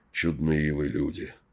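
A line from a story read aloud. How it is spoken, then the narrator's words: Mutter. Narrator (Russian): пробормотал Тихомир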